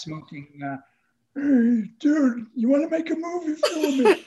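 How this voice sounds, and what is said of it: Imitated mafia-guy voice. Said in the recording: “the word mafia brings on the connotation of guys with guns ... I do that imitation”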